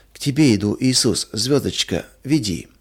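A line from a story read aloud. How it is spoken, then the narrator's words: Incoherent whisper in sleep. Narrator (Russian): Маруся часто вздрагивала во сне и бессвязно шептала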